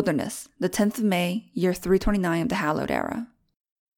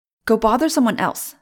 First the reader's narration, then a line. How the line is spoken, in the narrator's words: snapped at last